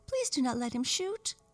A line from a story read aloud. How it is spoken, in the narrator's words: cried the French dolly